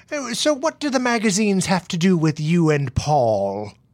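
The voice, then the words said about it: Aged mid-Atlantic accented character voice. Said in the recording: “Am I doing the accent right? ... That's so good. Aged considerably. ... I'm mixing a little bit of Ruth in there. ... he started out as British, and then he became mid-Atlantic. All right, and now he's old.”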